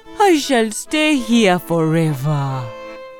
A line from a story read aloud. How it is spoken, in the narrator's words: said miserably